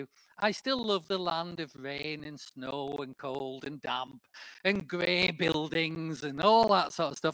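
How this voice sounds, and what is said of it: Northern English accent. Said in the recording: “I've not modified my accent in any way whatsoever ... I'm still a northerner.”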